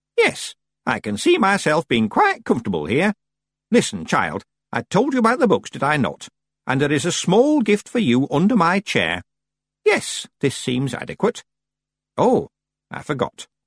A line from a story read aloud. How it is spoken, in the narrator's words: said cheerfully